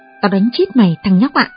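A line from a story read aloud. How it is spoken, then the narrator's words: Furious blacksmith's shout. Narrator (Vietnamese): Đồng thợ rèn đùng đùng nổi giận quát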